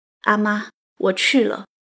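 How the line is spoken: Choked with tears. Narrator (Chinese): 哽咽着说了一句

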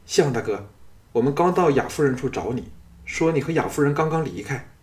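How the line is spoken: Flustered, agitated shout. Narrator (Chinese): 气急败坏地赶到，叫道

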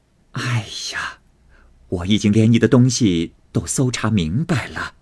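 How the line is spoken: Placating forced smile. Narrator (Chinese): 凤姐知道探春素日与众不同，只得陪笑道

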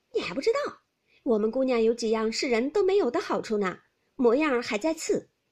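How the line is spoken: Laughing. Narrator (Chinese): 婴儿笑道

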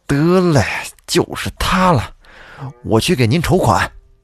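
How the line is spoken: Hesitant, then resolute. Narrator (Chinese): 陈秀才 犹豫了一下，咬了咬牙说

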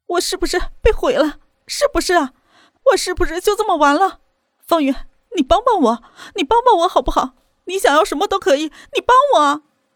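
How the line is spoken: Crying, pleading. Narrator (Chinese): 他哭着说

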